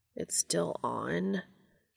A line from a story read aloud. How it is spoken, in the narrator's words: Cass asked quietly, incredulously